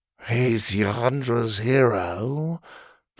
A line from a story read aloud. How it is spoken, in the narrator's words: Farlin muttered dreamily